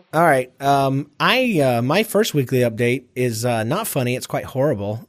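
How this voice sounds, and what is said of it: Low husky voice from illness. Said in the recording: “I have bronchitis ... my voice sounds so sultry and amazing, and it's not permanent”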